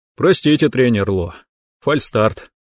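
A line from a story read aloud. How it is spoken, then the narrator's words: Sigh. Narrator (Russian): Вздохнул я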